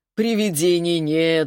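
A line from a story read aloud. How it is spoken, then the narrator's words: Laughing. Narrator (Russian): засмеялся Глеб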